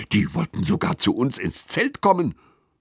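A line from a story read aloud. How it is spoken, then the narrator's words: Hissed. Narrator (German): zischt Lilly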